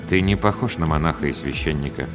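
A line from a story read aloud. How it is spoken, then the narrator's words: Quiet. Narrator (Russian): негромко сказал он мне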